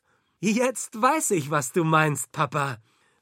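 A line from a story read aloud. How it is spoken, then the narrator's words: Called out. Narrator (German): rief sie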